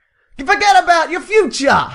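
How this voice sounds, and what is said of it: Put-on New York accent. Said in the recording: “Can you do it in your New York accent?”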